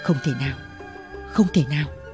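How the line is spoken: Muttering. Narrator (Vietnamese): Y lẩm bẩm

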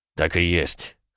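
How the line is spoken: Big man's snort. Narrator (Russian): хмыкнул амбал

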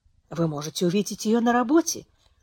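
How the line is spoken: Mutter. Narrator (Russian): пробормотал Хиль

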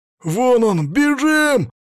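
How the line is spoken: Thin high-pitched yell. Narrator (Russian): тоненько заорал высокий

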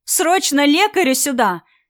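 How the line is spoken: Woman shouting. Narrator (Russian): закричал женский голос

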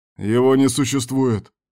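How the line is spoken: Leader's growl. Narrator (Russian): рыкнул вожак

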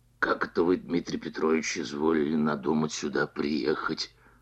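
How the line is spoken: Ingratiating, insinuating question. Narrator (Russian): спросил он вкрадчивым голосом, видимо, желая завязать разговор

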